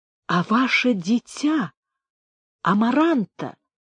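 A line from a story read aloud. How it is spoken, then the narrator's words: Quiet trembling question. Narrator (Russian): тихим дрожащим голосом спросил Антонио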